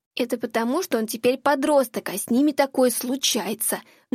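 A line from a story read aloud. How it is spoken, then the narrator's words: Hissed in ear, audible to all. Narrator (Russian): На ухо ей прошипела Шекна, но все услышали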